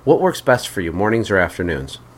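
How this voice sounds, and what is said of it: Polished customer-service phone voice. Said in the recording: “that was my phone voice there doing my script”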